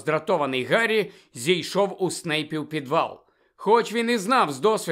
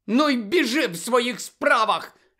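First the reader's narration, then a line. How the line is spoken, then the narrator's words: Furious shout. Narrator (Ukrainian): люто вигукнула Чо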